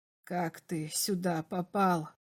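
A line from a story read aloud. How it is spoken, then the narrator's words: Quiet question. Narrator (Russian): спросил Берлах тихо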